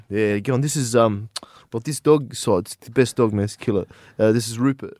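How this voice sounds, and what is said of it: Put-on Lebanese accent impersonation. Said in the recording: “It's funnier if I do the impersonation. ... I don't have an accent. ... I didn't know I was Lebanese.”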